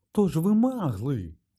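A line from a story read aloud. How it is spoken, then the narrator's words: Delighted exclamation. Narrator (Ukrainian): захоплено вигукнув містер Візлі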